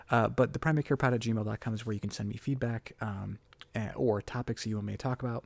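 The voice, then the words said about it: Whispering, low volume voice. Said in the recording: “if you hear me whispering, that's because uh, one of my children uh, is asleep about 20 feet from me in a different room, so I'm going to try and keep my volume down”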